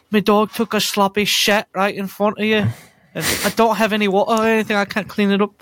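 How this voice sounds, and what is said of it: Scouse accent impression of Patty. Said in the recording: “You have a good Patty impression ... I've been working on my Scouser.”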